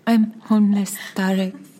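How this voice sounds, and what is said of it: Soft-spoken imitation of a woman. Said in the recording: “doing a really good impression ... because she's so soft-spoken”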